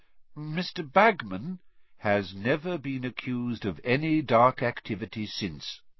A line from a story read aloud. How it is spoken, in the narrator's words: said Dumbledore, calmly